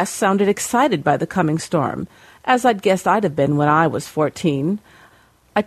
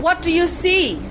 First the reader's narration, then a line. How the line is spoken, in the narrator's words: I yelled at Cress over the building wind